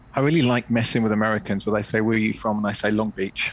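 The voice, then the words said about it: British accent. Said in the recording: “You are not from here, as the accent gives away. So tell us about your pathway from the UK to America.”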